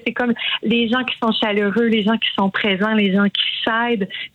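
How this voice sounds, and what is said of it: Regional Quebec French accent. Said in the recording (French): “mon accent va ressortir”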